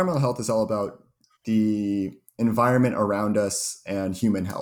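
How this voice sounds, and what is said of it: Usual voice. Nothing is said of it.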